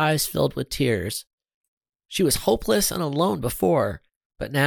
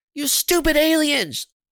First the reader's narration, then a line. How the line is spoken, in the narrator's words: she screamed